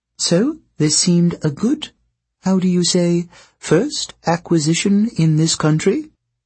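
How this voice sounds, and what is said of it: Rich exotic foreign-accented female voice. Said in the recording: “She spoke with a pleasing accent, but Jason couldn't guess where from ... Her voice was rich and exotic”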